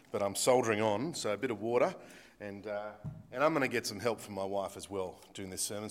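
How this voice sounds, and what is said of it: Sick, rough voice. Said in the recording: “Excuse my voice ... feeling a little bit ordinary. Got a nasty cough”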